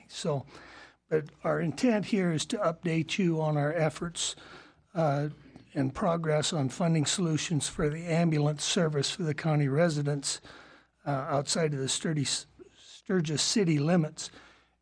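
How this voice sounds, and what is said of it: Congested voice from a cold. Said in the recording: “I've got a bad cold,”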